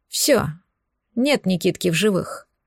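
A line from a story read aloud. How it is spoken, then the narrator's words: Grim pronouncement. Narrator (Russian): мрачно изрек Валерий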